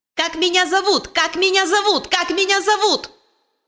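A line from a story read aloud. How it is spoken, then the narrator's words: Shrill anxious bird cry. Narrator (Russian): пронзительно закричал скворец, чувствуя какое-то беспокойство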